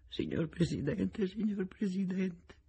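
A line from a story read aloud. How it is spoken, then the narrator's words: Soft sobbing repetition. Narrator (Italian): ripetendo sommessamente fra i singhiozzi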